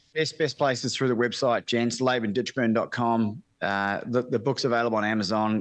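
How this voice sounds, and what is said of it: Australian / New Zealand accent. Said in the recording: “the Australian accent, I'm actually born in New Zealand ... I'm half Australian”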